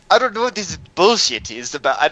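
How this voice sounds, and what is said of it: Mashed-up general European accent. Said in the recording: “not even the right accent. That was like, I don't even know. That was like some, just like a general Europe mashup.”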